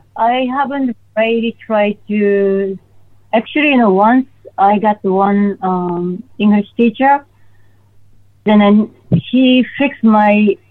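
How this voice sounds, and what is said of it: Non-native English accent. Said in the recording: “I speak English with my accent”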